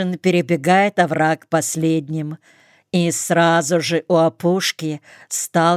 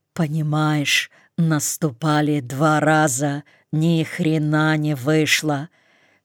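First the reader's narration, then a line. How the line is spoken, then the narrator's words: Hoarse half-whisper. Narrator (Russian): Хриплым полушепотом выкладывает лейтенант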